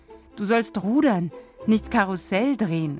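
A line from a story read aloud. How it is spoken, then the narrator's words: Calling out. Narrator (German): ruft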